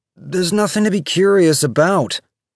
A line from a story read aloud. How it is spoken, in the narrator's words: David said, his voice getting louder